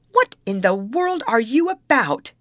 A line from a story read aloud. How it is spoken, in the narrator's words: he testily exclaimed